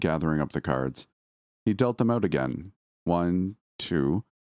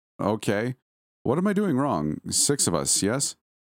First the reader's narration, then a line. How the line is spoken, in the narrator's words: With a nervous chuckle, Angelo said